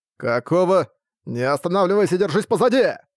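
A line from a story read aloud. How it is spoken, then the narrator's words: Shouted. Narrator (Russian): прокричал Арк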